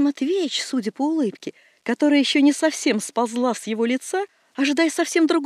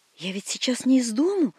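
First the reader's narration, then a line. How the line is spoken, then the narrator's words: Hesitant mutter. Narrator (Russian): бормочет Иван Матвеевич, нерешительно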